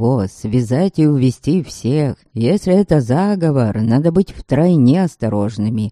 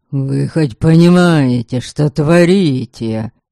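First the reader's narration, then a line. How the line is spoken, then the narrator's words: Hissing aristocrat. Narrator (Russian): прошипел аристократ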